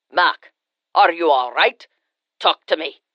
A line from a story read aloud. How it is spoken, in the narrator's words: a deep voice growled